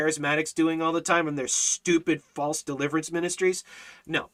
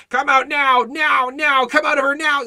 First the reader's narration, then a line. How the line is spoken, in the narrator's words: scream